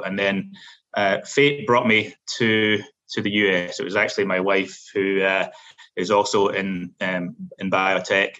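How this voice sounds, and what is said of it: Scottish Glasgow accent. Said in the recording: “I have a little bit of an accent. I'm not originally from these shores. So I'm originally from Scotland, specifically from Glasgow.”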